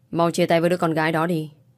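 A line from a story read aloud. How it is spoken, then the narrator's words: Loud, parents. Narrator (Vietnamese): bố mẹ Hoàng Bách ... lớn tiếng rồi nói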